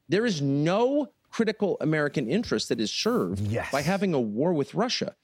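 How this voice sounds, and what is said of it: Agitated, rising emotional voice. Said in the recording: “why I'm so agitated or why my voice is rising or why I suddenly feel so emotional”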